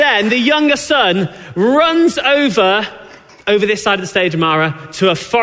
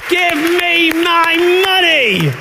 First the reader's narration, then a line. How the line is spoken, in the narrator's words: She shouts